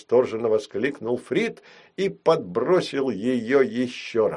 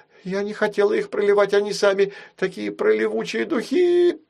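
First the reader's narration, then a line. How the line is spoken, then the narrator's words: Piglike squeal. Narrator (Russian): Попросячьи взвизгнула Нусяка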